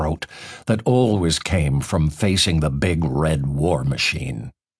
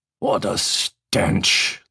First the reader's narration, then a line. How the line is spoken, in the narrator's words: the gruff voice next to me muttered